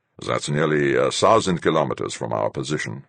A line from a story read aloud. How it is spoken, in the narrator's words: Fuchs grumbled